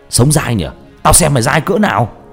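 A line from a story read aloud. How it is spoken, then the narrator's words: Enraged shout. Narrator (Vietnamese): Nó điên tiết, nó hét lên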